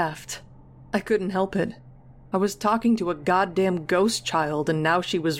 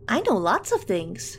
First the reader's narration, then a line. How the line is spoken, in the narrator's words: Nancy chirped